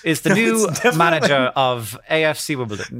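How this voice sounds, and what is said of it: Exaggerated BBC English accent. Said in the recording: “English accent ... This is like BBC voice ... like a seventh grader performing Oliver Twist”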